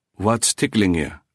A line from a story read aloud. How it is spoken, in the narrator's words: he asked in his ordinary tone, yet gravely